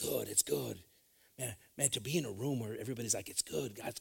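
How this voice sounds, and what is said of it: Usual voice. Nothing is said of it.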